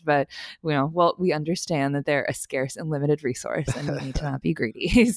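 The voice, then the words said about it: Congested voice with heavy vocal fry. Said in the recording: “I have a little bit of a cold. I wanted to apologize in advance for my advanced vocal fry.”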